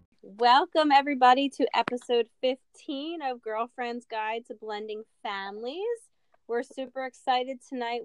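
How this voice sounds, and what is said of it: Congested voice from a head cold. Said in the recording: “A little bit of a head cold again, so my voice sounds silly”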